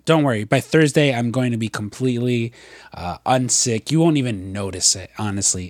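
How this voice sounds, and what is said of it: Slightly sick-sounding voice. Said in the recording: “if you can hear in my voice, I'm a little sick”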